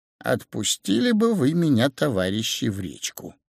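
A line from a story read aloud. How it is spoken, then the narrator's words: Quiet small voice. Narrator (Russian): рыбка сказала негромко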